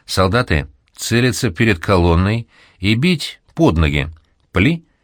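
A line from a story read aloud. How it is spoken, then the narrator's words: Loud command. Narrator (Russian): громко скомандовал Лепин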